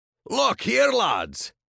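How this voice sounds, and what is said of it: Thick Scottish accent, feigned surprise. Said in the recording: “called out in a thick Scottish accent, his voice dripping with feigned surprise.”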